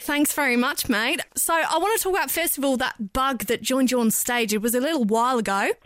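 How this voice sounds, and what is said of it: Put-on Australian accent. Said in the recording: “interview in an Australian accent ... your accent's great too”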